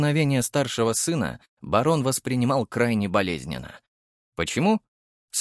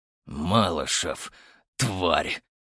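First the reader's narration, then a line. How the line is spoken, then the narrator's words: Growled. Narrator (Russian): прорычал Архаров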